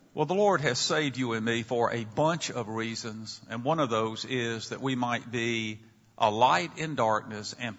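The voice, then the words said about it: Southern American accent. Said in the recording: “I had lost my Southern accent. But my students in Chicago tell me, no, that's not the case, and they may be right ... I may sound a bit different from the majority of you”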